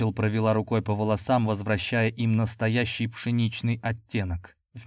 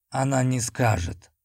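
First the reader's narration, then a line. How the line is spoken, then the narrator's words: Hoarse rasp. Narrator (Russian): прохрипел Джулиус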